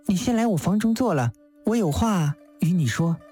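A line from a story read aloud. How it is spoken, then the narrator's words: Faint smile. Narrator (Chinese): 玉珠淡淡一笑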